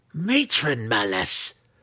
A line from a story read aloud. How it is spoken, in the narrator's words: she growled, her angry scowl